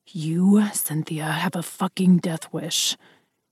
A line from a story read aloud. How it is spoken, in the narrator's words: he snarled